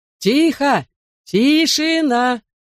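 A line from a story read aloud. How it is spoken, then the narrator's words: Shouted. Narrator (Russian): крикнул мистер Уин Гилли, помощник мэра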